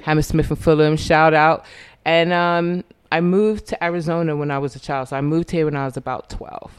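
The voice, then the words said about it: Slight London English accent. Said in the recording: “I'm noticing an accent... It's just a little bit. Originally, I'm from London.”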